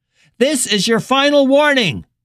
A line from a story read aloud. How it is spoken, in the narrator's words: the man was shouting through the bullhorn